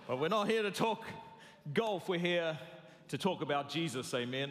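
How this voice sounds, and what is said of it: New Zealand accent. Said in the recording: “I'm sorry for the accent ... I'm a New Zealander”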